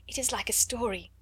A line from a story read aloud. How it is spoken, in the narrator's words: whispered joyfully